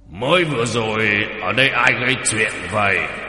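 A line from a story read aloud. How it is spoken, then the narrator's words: Loud question. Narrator (Vietnamese): lớn tiếng hỏi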